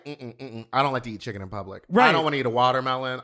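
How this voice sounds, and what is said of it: Imitates another person's voice. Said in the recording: “That was a good Dita Ritz impression. ... You channeled her”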